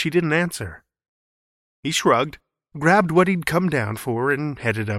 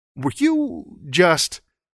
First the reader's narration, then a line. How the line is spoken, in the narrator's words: he stammered